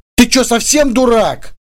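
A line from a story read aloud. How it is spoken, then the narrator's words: Shouting. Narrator (Russian): выкрикнула Ольга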